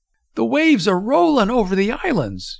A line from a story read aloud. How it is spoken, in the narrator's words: Julie was hollering